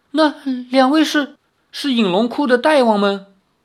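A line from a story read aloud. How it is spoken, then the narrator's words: Old man, trembling voice. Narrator (Chinese): 那老头儿颤声说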